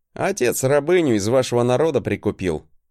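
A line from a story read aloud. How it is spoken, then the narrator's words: Unbothered smirking snort. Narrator (Russian): хмыкнул я, не особо комплексуя от своего происхождения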